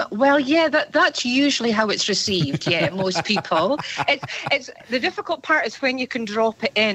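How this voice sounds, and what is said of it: Scottish accent. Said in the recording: “I didn't think you were going to have that accent. ... originally from Scotland, Aberdeen.”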